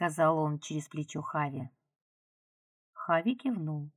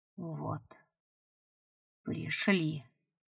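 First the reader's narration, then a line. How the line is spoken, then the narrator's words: Whispered. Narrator (Russian): шепнул ему Бойд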